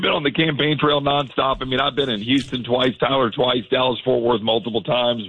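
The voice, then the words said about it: Worn, hoarse voice. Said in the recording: “my voice is a little worse for the wear, if you can't tell.”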